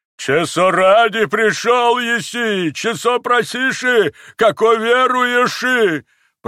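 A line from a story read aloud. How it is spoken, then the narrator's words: Shouting like a holy fool. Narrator (Russian): прокричал отец Ферапонт, юродствуя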